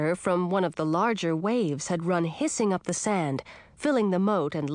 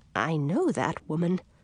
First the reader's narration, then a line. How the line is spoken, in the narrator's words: Grisina muttered